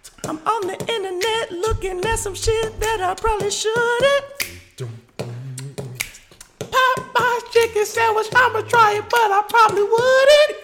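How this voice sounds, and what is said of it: Falsetto Elmo impression. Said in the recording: “since we're doing the falsetto shit, I'm gonna invite my nigga Elmo”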